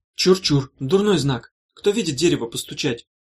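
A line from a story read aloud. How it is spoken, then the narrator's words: Superstitious exclamation. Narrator (Russian): суеверно воскликнула Ильга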